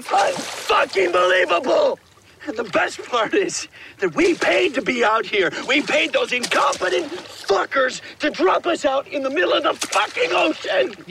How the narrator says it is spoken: he just starts screaming

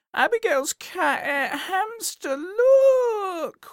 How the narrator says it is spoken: wailed Molly

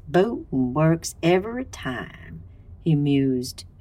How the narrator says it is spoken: his Boston growl dropping to a smooth southern drawl

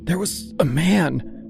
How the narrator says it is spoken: she said, her voice strangled and thin

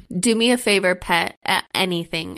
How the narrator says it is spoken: I stutter out

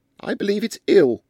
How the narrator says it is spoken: said Louisa Mebbin loudly in Hindustani, for the benefit of the village headman, who was in ambush in a neighbouring tree

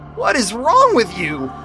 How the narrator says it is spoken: Phil bellowed

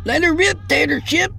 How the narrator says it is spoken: the other boy's terror-stricken voice squeaked

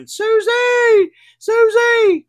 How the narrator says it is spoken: screaming

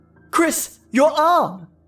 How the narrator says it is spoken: Tammy cried out in complete shock

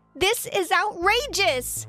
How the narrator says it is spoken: I yelled out

